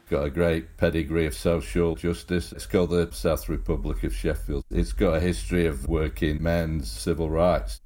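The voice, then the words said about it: Non-American accent. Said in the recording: “you don't have an American accent there”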